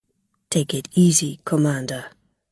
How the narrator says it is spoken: he said quietly

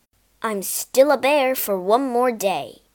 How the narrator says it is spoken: roared the prince

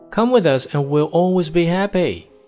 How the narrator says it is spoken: shouted the one hundred and more boys in the wagon all together

